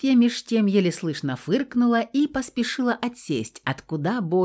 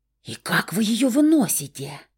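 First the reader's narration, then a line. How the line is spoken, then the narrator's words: Loud whispered question. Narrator (Russian): громким шепотом спросила Стаська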